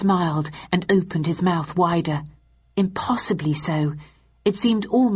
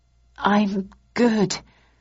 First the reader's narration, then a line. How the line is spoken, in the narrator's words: I replied shakily